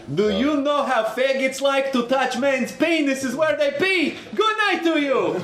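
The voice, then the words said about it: Put-on Russian accent. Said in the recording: “doing a Russian accent”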